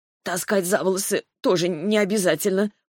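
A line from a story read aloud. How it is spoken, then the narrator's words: Wheezed hoarsely. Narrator (Russian): прохрипела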